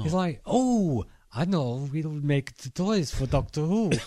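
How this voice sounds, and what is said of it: Put-on Dutch or Belgian accent. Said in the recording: “you're doing a bit of a sex accent, though. ... It's supposed to be the Low Countries.”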